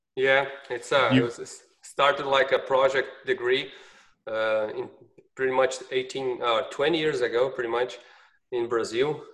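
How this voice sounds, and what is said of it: Brazilian-accented English. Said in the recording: “if people don't realize my accent ... Has anyone ever told you just have the sexiest voice?”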